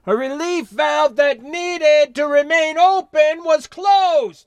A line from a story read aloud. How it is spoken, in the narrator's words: replied, then shouted over his shoulder